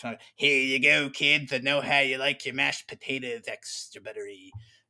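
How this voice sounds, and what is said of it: Creepy lunch lady character voice. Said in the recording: “I do that voice and a little bit of Lunch Lady Doris ... that's my creepy Lunch Lady character”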